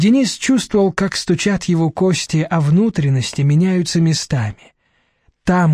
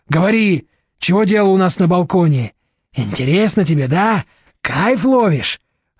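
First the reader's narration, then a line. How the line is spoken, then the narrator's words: Yelling orangutan. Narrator (Russian): орал орангутанг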